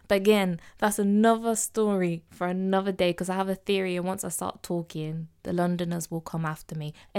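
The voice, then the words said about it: English Midlands accent. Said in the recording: “I'm not from London. I'm not from down south. I'm a Midlands girl. So I'm going to speak with my accent.”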